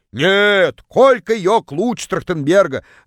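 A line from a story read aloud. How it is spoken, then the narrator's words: Distant yell. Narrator (Russian): Заорала одна из них из самого дальнего угла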